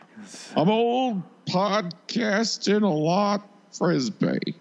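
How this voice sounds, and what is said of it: Imitates an actor's voice. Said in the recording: “that was pretty good impression though... when you are doing that voice, I was looking at him matched perfectly.”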